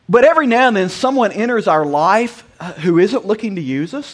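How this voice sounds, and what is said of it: Southern US accent, South Georgia. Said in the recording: “I have an accent that sounds like I crawled out from under a trailer park in South Georgia”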